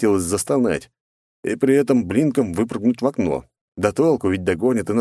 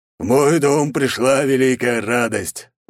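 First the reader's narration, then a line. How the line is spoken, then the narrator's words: Loud speech. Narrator (Russian): громко проговорил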